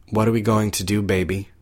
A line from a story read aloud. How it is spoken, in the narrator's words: asked wearily